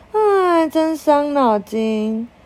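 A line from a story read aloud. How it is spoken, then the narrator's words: Sighing. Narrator (Chinese): 小杰 叹口气说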